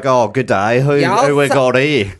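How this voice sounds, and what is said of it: Put-on Australian accent. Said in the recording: “Do you sound Aussie as when you go back home?”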